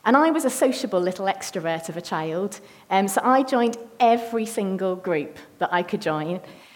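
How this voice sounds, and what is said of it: Northern English accent. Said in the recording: “My family moved from the north of England, you can probably all tell by my accent that I'm not local”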